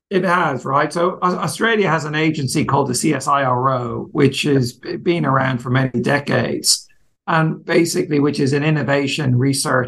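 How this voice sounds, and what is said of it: Irish accent. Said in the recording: “as you can guess from my accent, from working as a partner leading international practice in a big Irish law firm”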